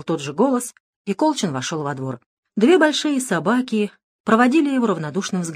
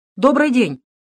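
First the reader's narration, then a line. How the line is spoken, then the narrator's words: Loud host's greeting. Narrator (Russian): громко произнес хозяин дома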